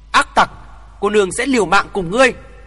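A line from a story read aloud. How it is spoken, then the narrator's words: Hissed with hatred. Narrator (Vietnamese): Cô gái rít lên căm hờn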